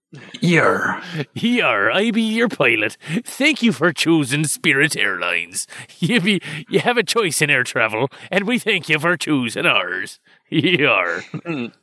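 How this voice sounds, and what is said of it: Pirate voice. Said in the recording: “pilot and or pirate talk ... talking like a pirate”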